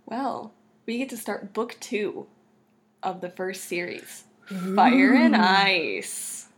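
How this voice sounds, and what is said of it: Salesy, pitchman-style delivery. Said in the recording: “You sound like a car salesman.”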